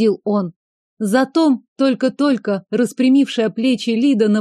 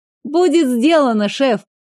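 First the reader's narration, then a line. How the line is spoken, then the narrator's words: Chuckling. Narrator (Russian): хохотнула блондинка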